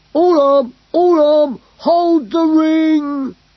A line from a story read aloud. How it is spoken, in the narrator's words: cried Glurk